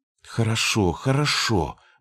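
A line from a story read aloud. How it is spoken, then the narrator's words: Exclamation. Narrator (Russian): воскликнула она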